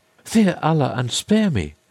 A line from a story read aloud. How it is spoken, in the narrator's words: cried she